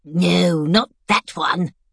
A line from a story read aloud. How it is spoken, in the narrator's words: said sharply